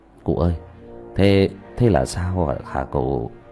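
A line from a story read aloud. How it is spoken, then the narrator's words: Stammering question. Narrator (Vietnamese): Bác La lắp bắp hỏi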